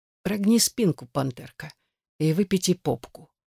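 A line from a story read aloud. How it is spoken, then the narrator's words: Soft. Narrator (Russian): мягко проговорил он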